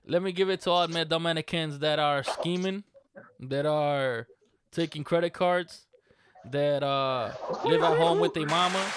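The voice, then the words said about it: Put-on Dominican accent. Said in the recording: “give another shout out to all our Dominican Republican people ... Go ahead and hit them with that accent”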